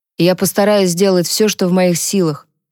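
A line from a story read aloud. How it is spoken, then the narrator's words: Plain. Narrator (Russian): сказал Люк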